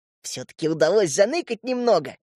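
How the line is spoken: Giggling. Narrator (Russian): хихикнул Крош

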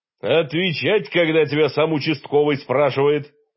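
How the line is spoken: Barked, slapping the table. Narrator (Russian): рявкнул горох, хлопая по столу ладонью

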